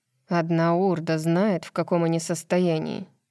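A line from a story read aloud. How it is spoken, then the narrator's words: Sullen. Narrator (Russian): все тем же угрюмым тоном продолжал Деклан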